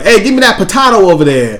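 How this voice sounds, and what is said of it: Put-on Brooklyn accent, badly done. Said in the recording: “Oh, that was a Brooklyn accent? ... God, it got worse the second time”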